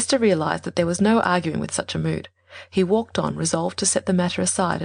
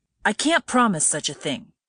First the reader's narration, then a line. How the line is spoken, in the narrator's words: he cried angrily